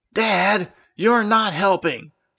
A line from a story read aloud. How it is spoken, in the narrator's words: shouted May